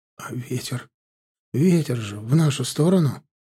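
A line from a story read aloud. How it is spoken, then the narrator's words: Quiet speech. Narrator (Russian): тихо проговорил Мишка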